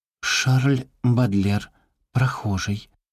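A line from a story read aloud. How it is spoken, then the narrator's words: Trembling voice. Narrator (Russian): дрожащим голосом начала Мона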